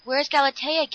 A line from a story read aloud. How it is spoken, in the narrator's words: gasped Dan